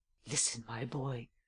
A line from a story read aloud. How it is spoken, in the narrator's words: I whispered in his ear